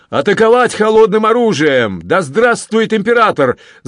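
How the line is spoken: Frenzied shout. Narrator (Russian): закричал исступленно Анри

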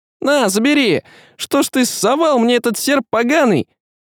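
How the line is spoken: Shrieking short man. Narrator (Russian): завизжал коротышка

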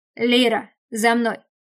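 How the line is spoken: Command. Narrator (Russian): приказал Деймос

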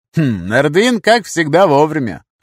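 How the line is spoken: Snorted. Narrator (Russian): хмыкнул

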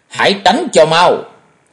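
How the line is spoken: Sharp shout. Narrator (Vietnamese): Tam Quan Thần Ni quát lên một tiếng

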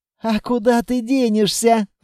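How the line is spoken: Cheerful snort. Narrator (Russian): радостно фыркнула Анна

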